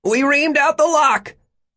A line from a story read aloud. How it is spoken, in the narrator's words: Luddy shouted